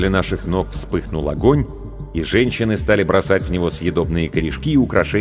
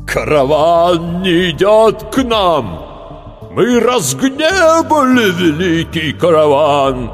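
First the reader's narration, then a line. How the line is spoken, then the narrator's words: Terrible voice, elder man. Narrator (Russian): заговорил страшным голосом старший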